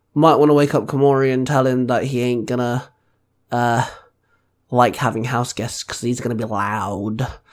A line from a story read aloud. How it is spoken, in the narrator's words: Penny chuckled